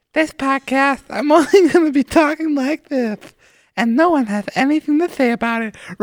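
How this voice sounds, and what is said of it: Weird put-on voice. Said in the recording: “weird voice”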